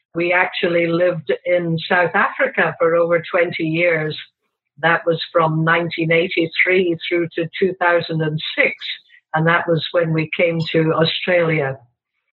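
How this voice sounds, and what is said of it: Slight foreign accent. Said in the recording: “you've got a bit of an accent”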